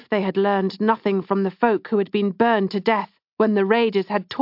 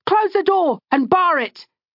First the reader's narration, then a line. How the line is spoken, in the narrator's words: Jelen and Dada shouted